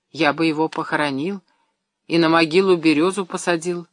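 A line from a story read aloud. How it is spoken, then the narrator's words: Quiet boy. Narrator (Russian): тихо проговорил мальчик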